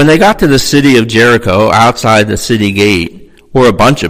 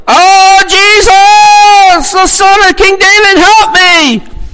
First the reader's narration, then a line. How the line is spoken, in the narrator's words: he cried out loudly